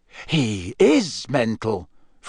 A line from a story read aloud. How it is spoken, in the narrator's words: Fred said in an almost awed voice